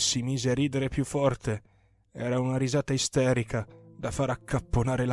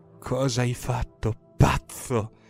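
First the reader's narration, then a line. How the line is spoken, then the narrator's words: Sad, fearful, angry whisper. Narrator (Italian): Bisbigliai al limite della tristezza, della paura, dell'ira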